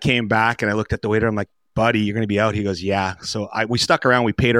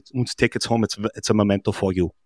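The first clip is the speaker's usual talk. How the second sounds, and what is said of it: Imitated German accent. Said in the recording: “in his German, best German accent”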